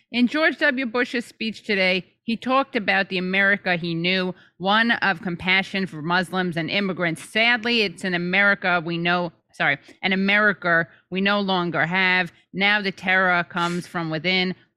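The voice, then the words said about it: Rob Reiner impression, New York Jewish accent. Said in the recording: “Rob Reiner ... What's his accent like? It's just kind of a generic. I'm not really good at these. I'm really kind of phoning it in ... You can't do a New York Jewish accent?”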